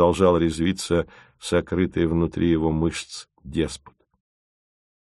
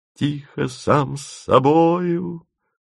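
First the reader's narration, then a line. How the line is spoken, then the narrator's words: Joyful loud proclamation. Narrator (Russian): радостно загласил Тимофеев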